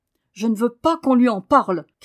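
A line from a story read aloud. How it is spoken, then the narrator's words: Fierce shout. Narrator (French): cria Daniel d'un ton farouche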